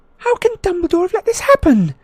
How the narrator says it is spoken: Hermione cried suddenly

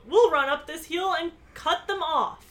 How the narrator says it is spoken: her cousin, who yelled

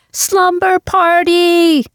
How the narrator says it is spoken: we both shouted

